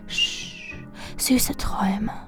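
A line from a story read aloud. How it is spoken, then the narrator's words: Whispered. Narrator (German): ich flüsterte nur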